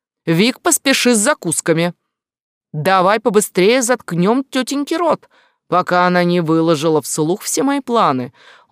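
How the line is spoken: Sharp scolding shout. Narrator (Russian): Юта прикрикнул

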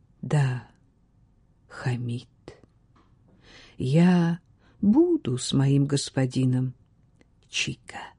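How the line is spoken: Quiet, restrained emotion. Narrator (Russian): словно превозмогая свои чувства, а затем ее голос тихо ответил

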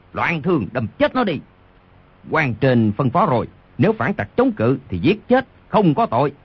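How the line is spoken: Pained furious roar. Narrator (Vietnamese): Đoàn Thiên Đức trúng đòn đau quá, vô cùng tức giận gầm lên

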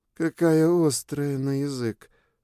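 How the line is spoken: Strained, forced out. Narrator (Russian): наконец выдавил Ксабир

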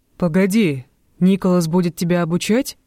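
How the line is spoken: Loud laughter. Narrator (Russian): Роланд расхохотался

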